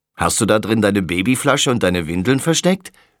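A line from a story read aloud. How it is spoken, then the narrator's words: Mocking. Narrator (German): spottet er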